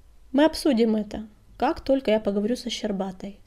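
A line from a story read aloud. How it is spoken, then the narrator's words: Calm. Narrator (Russian): спокойно ответила синяя звезда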